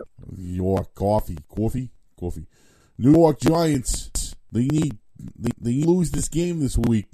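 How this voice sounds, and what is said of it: New York accent, Mike Francesa impression. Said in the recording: “That's not a good Frances, huh? ... Do the New York accent”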